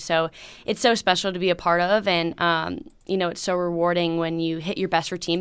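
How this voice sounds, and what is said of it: Hoarse, husky voice. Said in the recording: “losing the voice sounds amazing ... she has got a radio voice.”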